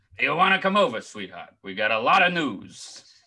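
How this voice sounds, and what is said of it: Larry King impression. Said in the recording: “Larry King. This is not a bad Larry King. I've never tried to do a Larry King impression before.”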